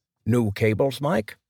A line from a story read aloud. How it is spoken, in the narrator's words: asked Jimmy